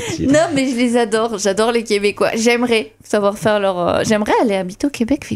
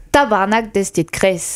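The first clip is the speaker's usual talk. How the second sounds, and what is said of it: Poor attempt at Québécois accent. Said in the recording (French): “j'aimerais avoir un bon accent québécois ... Il est nul, je peux essayer.”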